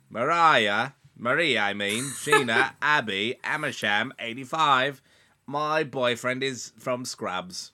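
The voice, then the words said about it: Imitates another person's voice, British accent. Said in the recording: “you sound like a Brit already ... my Florence Pugh impression”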